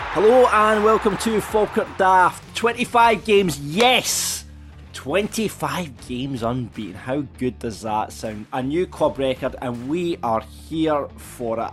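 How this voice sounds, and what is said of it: Slightly hoarse voice. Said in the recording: “a little bit hoarse after last night”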